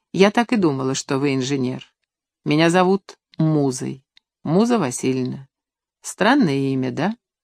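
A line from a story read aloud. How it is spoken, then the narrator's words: Friendly, softly mocking smile. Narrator (Russian): Незнакомка сказала с неожиданной приветливостью, улыбаясь мягко, хотя и не без насмешки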